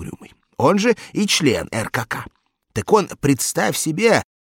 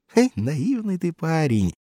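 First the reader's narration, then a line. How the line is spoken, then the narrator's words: Sigh. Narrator (Russian): вздохнул Угрюмый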